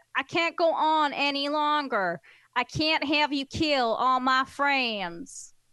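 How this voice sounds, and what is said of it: Northern English woman attempting Texas accent. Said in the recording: “Doesn't sound like him at all ... this English girl from the north of England can actually do an accent of a guy from Texas”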